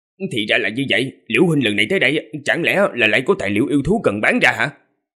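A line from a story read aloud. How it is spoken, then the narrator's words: Smiling, modest. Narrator (Vietnamese): Liễu Minh mỉm cười, khiêm tốn nói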